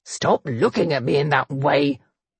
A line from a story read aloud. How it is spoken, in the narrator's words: he growled